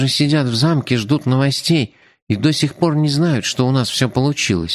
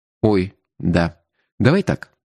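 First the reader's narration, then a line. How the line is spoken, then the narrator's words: Plain. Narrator (Russian): сказал я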